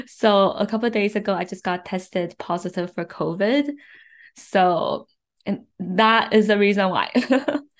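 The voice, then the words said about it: Soft, slightly weak sick voice. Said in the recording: “my voice sounds a little bit weird than normal, a little bit softer than normal ... stuck at home, sick”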